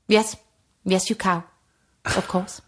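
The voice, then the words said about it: Imitates another person's voice. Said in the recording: “you do a very good impression”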